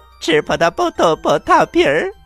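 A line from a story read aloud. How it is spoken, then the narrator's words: Calling out. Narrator (Chinese): 叫了一声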